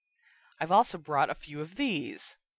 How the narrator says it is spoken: Fred said cheerfully

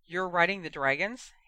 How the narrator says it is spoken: Harry asked

